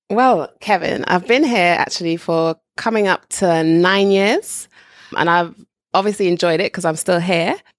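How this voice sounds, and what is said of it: Upper-class British English accent. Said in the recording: “You speak the Queen's English with the Queen's accent.”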